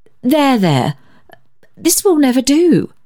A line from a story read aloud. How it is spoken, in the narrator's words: demurred the lady